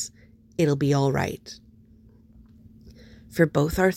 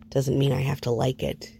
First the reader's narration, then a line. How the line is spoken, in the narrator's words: he mutters